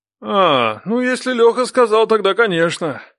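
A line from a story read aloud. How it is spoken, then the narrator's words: Father snorting. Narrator (Russian): хмыкнул папа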